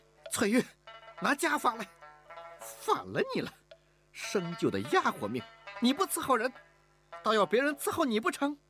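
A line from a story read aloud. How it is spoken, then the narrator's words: Exasperated shouting. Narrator (Chinese): 吴雅士……忍无可忍地喊道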